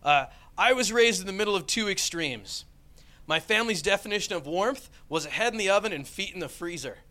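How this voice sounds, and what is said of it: American accent. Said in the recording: “especially with my accent, right? Everybody else sounds so educated. I'm like, me from America”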